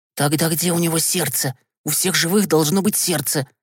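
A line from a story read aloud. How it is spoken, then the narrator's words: Whisper. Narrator (Russian): добавил он шепотом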